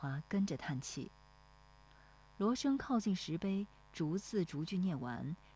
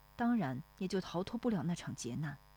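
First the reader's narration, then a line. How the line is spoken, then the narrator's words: Sighing. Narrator (Chinese): 罗生叹口气说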